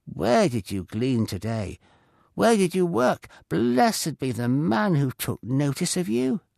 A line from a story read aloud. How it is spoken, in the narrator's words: Naomi exclaimed, her eyes wide with surprise